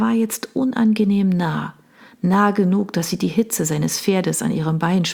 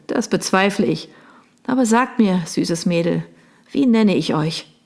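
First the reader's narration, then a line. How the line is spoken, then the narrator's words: Laughing question. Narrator (German): fragte er und lachte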